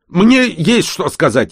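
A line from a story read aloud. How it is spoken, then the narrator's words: Anxious, nearly shouting. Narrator (Russian): едва не закричал Эстер, опасаясь пропустить свою очередь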